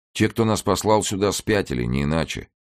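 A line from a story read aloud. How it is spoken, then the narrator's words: Undertone. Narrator (Russian): вполголоса сказал Педро Хакета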